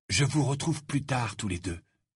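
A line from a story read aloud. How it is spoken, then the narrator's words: Breathless whisper. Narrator (French): dit Harry dans un souffle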